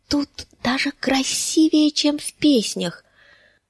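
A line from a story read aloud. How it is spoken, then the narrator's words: Whisper. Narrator (Russian): прошептала она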